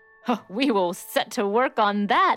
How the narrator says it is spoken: exclaimed Hansel

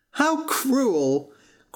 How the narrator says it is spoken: cried Butcher Boy George

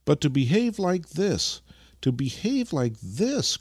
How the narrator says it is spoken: cried the old man with unrestrained grief

